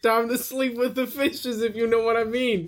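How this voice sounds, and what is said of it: Weak Boston accent, drifting New York. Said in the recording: “Boston ... I'm not good at Boston accents. It just becomes a New York accent”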